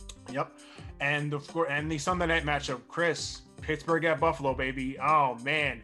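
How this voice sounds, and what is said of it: Usual voice. Nothing is said of it.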